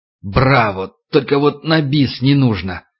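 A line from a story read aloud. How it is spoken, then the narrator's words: Growled by a burly man. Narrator (Russian): Снова зарычал квадратный качок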